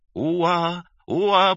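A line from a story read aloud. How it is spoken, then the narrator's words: Flat monotone infant squeaks. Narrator (Russian): Почти без чувства, как по долгу службы, пищали малютки на одной ноте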